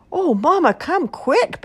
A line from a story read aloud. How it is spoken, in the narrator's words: Baby Baboon cried